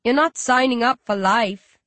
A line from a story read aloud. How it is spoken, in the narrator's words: he chuckles